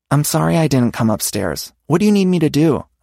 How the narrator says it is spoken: I asked

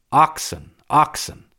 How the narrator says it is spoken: the devout exclaimed

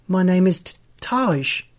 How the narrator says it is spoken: he stutters

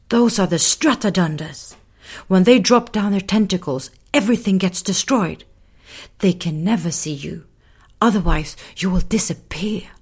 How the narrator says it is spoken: She whispered

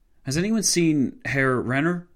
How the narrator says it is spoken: Horton von Hotzendorf asked, his voice shaking

